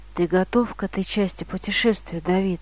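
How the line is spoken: Quiet question. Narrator (Russian): тихо спросил Цайсбергер

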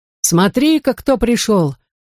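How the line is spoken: Exclamation. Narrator (Russian): воскликнул дядя Дикран

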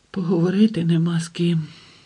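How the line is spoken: Barely audible whisper. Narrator (Ukrainian): прошепотіла ледь чутно

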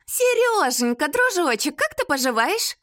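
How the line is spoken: Cheerful chatter over phone. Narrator (Russian): радостно зажужжала подруга в трубку

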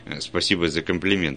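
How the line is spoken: Plain. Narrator (Russian): ответил я

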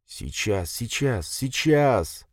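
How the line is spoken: Old man muttering into beard. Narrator (Russian): забормотал себе в бороду дедок

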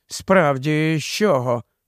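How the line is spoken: Muttered. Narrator (Ukrainian): пробурмотів Наткін

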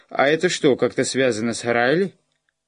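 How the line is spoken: Raised voice over noise. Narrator (Russian): Хай просто повысил голос, чтобы его перекричать

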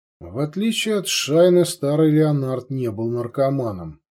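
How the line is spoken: Sigh. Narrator (Russian): вздохнул Делок

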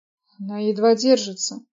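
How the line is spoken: Hoarse agitated voice. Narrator (Russian): сиплым от волнения голосом начал Роб

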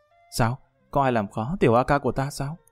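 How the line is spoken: Warm teasing. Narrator (Vietnamese): An Bích Như ấm áp trong lòng, nháy mắt nói

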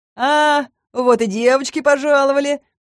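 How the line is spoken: Mocking sneer. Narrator (Russian): насмешливо оскалился

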